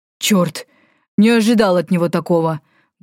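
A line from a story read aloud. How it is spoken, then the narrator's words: Exhaled. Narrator (Russian): выдохнул Валифор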